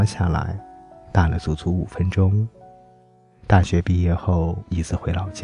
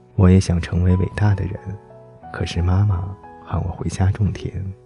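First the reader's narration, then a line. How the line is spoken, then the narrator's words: Flat, indifferent. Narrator (Chinese): 他淡淡的说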